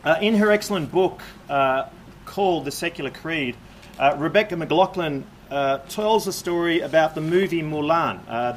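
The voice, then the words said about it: Speaks English with a noticeable accent. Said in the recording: “You can understand my accent, yes? Not too hard to understand.”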